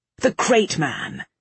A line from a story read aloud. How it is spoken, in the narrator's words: Vale snapped